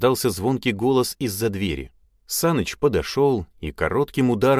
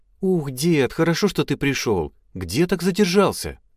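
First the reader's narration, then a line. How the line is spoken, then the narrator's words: Joyful. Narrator (Russian): Радостно произнесла Эльза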